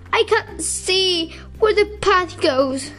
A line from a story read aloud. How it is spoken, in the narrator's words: he moaned